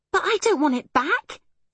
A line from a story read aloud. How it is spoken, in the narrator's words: exclaimed Arietti